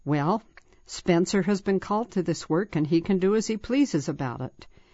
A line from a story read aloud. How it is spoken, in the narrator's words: President Grant said very calmly but firmly